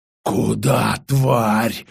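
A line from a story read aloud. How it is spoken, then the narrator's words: Snarling. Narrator (Russian): зарычал тот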